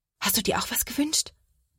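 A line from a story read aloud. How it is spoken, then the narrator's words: Whisper. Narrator (German): flüstert Sophia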